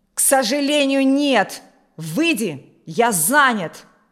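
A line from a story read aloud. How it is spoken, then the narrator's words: Shouting. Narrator (Russian): закричал Алексей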